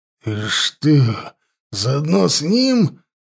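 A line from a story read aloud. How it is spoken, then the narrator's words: Hissed. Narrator (Russian): зашипел Нак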